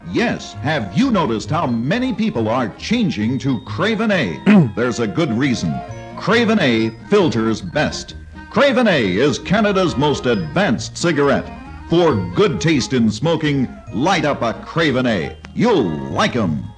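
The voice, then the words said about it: Announcer-style radio voice. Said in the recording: “my radio voice.”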